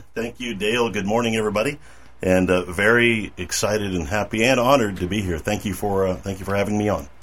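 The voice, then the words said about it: Polished radio announcer voice. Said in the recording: “the man with the radio voice”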